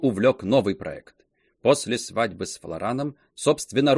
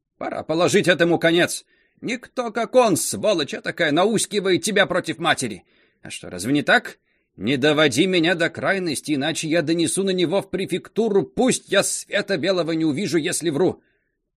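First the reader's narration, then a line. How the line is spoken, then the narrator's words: Angry shout after quarrel. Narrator (Russian): после ссоры со старшей дочерью, она крикнула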